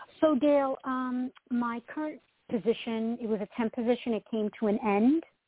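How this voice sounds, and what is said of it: Long Island New York accent. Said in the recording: “I'm from Long Island originally ... we love your accent”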